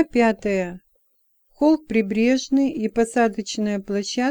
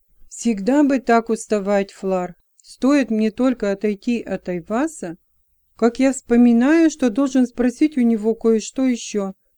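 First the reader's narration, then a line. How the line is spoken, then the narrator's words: Laughing. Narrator (Russian): засмеялся Робинтон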